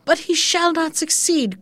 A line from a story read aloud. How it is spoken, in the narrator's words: cried